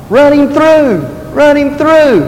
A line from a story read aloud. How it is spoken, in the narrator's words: somebody from the crowd cried out